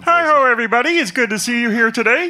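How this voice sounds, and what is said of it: Muppet character voice. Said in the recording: “start doing a Muppet voice”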